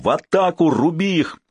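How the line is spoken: Shouted. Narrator (Russian): Поняв, что хитрость не удалась, он крикнул другу

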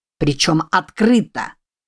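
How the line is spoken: Loud shout. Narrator (Russian): Последнее слово он громко выкрикнул

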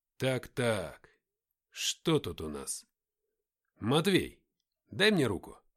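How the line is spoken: Commanding tone. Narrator (Russian): Игнат сказал таким приказным тоном

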